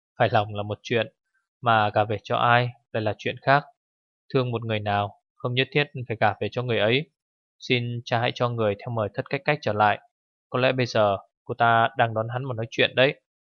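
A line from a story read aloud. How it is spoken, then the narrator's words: Smiling. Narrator (Vietnamese): Tổ Thiên Hương mỉm cười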